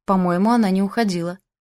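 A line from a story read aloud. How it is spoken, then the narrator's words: Snorting, wry. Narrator (Russian): хмыкнул Джейк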